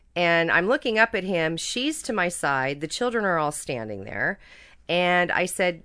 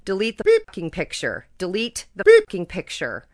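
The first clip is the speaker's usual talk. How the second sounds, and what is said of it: Very loud yelling. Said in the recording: “starts to yell in a very loud voice”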